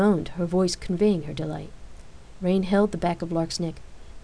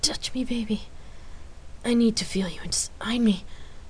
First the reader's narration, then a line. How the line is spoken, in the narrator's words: Rain replied, her voice throaty with desire